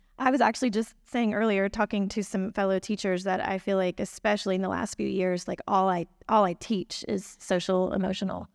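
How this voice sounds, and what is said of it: Hoarse, croaky voice. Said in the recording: “sorry, I have a frog in my throat.”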